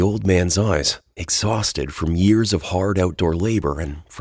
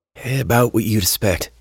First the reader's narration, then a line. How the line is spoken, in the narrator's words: Henry said in a sigh